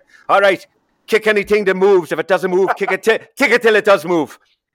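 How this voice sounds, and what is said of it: Put-on Irish accent. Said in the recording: “you got the accent... you got it spot on there”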